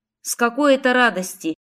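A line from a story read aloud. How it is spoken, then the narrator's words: Scornful snort. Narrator (Russian): фыркнула я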